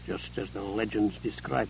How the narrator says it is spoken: he murmured

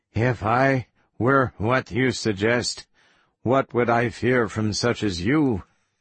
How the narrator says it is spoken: Moving his lips stiffly as though against great pain, Tega said

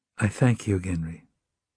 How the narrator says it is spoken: he said

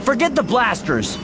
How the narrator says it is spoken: you shout into the intercom

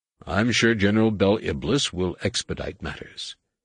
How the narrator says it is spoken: Felia said evenly

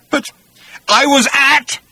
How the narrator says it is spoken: roared Agrajack

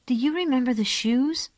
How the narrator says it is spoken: Harriet asked dreamily

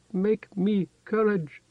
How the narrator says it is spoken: Sesarach murmured in Hardik

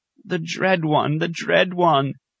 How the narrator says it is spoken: whined the old woman

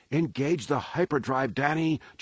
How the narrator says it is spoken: Cho pleaded

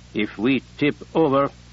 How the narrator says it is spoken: Musa said, his voice made uneven by the jarring

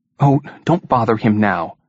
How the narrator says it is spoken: said Jean anxiously, and with a little too much haste

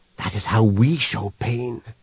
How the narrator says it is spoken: whispered Human

